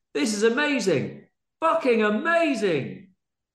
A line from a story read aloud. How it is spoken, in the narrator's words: Bonzo shouted to Danton in midair